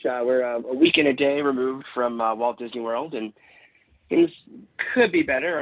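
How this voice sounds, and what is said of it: Slightly raspy voice. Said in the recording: “my voice is a little raspy tonight”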